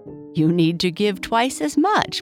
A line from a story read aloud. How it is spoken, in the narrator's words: Boo Boo laughed